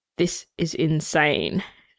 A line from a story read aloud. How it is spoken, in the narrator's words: Shane mutters